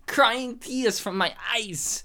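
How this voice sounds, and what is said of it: Put-on accent imitating another person. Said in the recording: “that was my impersonation of you... I was just doing an accent because you do an accent on this show”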